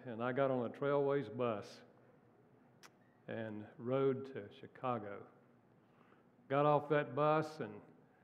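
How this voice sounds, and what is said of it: North Carolina Southern accent. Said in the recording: “where does that accent come from? North Carolina.”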